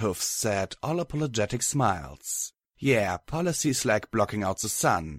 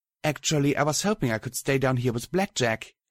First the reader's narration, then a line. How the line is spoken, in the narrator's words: she said brightly